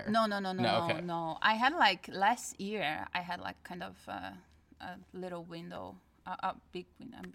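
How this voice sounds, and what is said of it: Foreign accent in English. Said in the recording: “your that accent”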